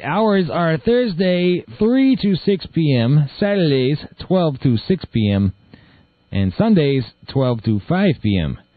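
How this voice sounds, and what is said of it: Slightly slurred speech. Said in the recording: “My lip's still a little numb from my operation... that's why I'm slurring. My lip is all sewn up.”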